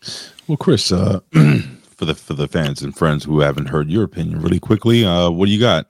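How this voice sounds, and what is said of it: Hoarse voice. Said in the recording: “I'm a little hoarse today”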